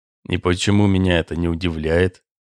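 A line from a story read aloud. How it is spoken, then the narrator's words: Muttering. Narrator (Russian): пробормотал Кулиджанов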